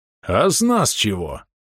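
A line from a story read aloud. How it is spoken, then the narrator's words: Insinuating rasp. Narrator (Russian): Полуорк вкрадчиво прохрипел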